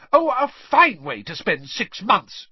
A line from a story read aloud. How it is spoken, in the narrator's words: she shrieked